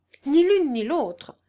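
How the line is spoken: Defensive exclamation. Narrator (French): s'écria-t-il en cherchant à se justifier à ses propres yeux

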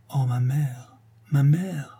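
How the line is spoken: Murmured. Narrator (French): elle murmure

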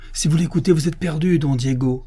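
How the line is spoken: Exclaiming. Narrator (French): s'écria l'abbé

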